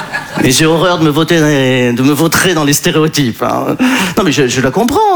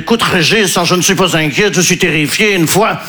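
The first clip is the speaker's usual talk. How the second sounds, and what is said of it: Put-on Belgian accent. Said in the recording (French): “je prends l'accent belge parce que je ne sais pas faire l'accent ukrainien”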